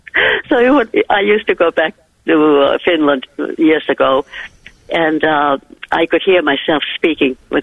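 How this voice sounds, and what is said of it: Mid-Atlantic Finnish-American accent. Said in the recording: “You have the most beautiful accent ... My accent is in the middle of the Atlantic Ocean”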